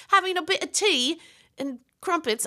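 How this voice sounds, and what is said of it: Poor attempt at British accent. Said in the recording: “I'm terrible with accents.”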